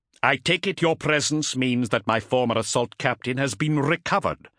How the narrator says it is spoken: Zadkiel snapped, annoyed at Guriod's unwillingness to bask in his self-perceived reflected glory

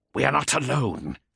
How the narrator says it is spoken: he snarled

